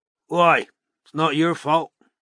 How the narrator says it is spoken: grunted Strike

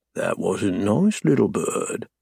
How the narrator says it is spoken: murmur

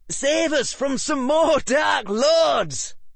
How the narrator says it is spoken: called one of the Weasley twins

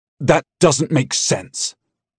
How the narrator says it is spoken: he spat

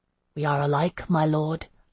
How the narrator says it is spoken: I murmured

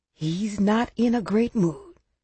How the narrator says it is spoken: Grandma whispered

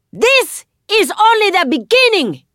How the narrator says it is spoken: Raifa shouts, thrashing as more soldiers hold her down

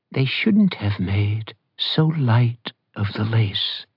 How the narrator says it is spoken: Liliana said in her sweet old lady voice

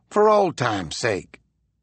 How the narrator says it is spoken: he said wearily to Yancey

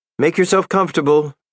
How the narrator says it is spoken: shouted out

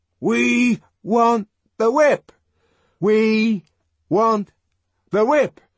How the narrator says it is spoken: broke out again in the same loud, insistent monotone

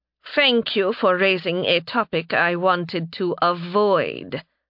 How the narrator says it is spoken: Narime replied, her tone acidic

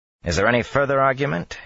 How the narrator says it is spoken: he asked in a wry tone

